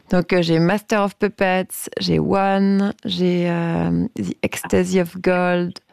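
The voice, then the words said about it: Poor English accent on titles. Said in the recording (French): “Avec mon accent anglais complètement nul.”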